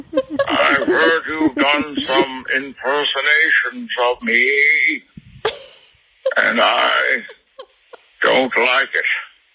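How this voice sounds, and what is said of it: Imitates a movie villain's voice. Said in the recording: “Bane ... It's my fucking voice. It's not a bit.”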